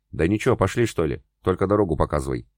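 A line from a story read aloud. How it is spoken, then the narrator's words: Plain. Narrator (Russian): ответил Молодцов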